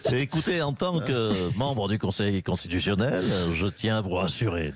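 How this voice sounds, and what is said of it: Alain Juppé impression, slight accent. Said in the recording (French): “j'ai un petit timbre de voix. Petit accent. C'est Alain Juppé.”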